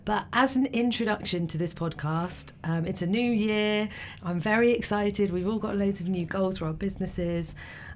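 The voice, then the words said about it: Sore-throated, rough voice. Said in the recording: “I've got a sore throat, so apologies for my voice today.”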